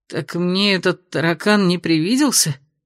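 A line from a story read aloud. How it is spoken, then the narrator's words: Muttered disbelief. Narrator (Russian): пробормотал он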